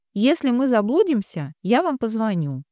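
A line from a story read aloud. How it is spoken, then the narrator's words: Cheerful. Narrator (Russian): весело сказала Женя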